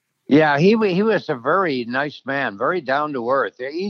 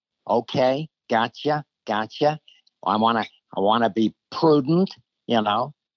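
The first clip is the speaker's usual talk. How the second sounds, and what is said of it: Imitates another person's voice. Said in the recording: “doing the George Bush ... my George Bush impression”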